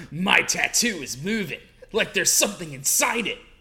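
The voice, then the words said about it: Performs a female character's voice. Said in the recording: “you want to do her voice.”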